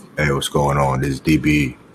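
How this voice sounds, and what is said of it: Exaggerated super deep sexy voice. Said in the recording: “now you coming in with the deep voice ... He came in all super deep ... I was going for oil on the chest, sexy voice”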